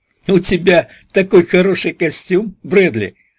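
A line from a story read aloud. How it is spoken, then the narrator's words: Laughing, unafraid. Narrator (Russian): Стейси продолжал смеяться, нисколько не испугавшись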